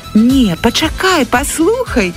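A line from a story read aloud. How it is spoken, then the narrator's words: Exclamation. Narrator (Belarusian): усклікнула Оксана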